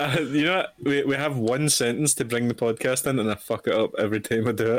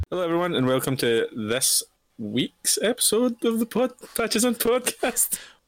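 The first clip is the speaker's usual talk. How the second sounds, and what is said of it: Voice pitched too high. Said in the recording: “lower your voice, man? You went a wee bit too high.”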